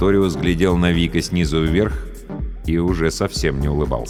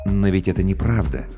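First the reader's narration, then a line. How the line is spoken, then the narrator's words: Soft. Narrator (Russian): мягко произнес Сарториус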